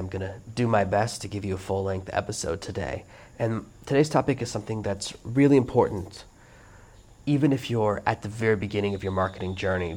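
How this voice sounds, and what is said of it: Froggy, worn-out voice. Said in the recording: “my voice sounds a little bit froggy, a little bit worn out ... I did have to stay up all night and it just wore me out”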